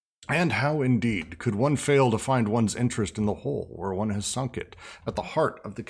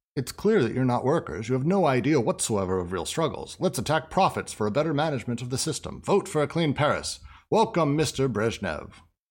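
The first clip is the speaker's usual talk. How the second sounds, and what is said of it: Old-timey radio announcer voice. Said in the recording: “That's my old-timey radio voice.”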